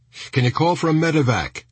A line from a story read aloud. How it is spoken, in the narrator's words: shouted Hooten